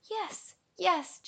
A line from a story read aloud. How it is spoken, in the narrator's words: Jerry cried